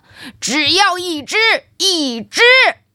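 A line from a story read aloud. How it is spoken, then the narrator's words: Shouting while chasing. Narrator (Chinese): 主人在后面追赶，嘴里喊着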